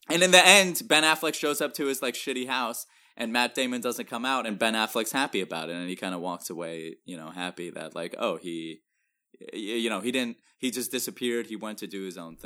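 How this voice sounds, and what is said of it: Put-on Boston accent. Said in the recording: “Top-notch Boston accent.”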